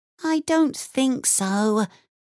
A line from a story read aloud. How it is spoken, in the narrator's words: Emmy said sadly